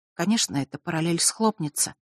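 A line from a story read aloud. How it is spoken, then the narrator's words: Whisper. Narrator (Russian): прошептала она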